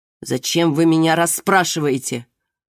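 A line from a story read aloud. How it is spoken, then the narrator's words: Suddenly irritated. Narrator (Russian): сказал он вдруг раздраженно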